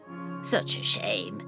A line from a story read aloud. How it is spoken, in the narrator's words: hisses Jessie out of the corner of her miserable mouth